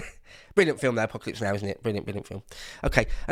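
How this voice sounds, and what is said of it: Usual voice. Nothing is said of it.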